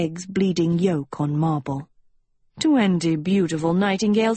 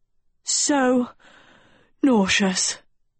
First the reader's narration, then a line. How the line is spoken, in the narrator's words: Dot panted like an overheated camel